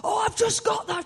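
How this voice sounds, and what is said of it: Deliberately poor impression of someone. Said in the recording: “That's a terrible impression.”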